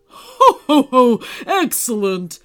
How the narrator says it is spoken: laughed Santa

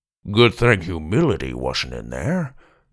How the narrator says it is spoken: Grandpa mumbled

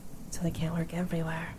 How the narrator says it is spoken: he muttered back

